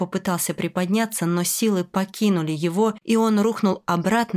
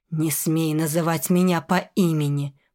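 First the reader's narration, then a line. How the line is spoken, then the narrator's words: Venomous hiss. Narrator (Russian): прошипел он, и в каждом слоге был яд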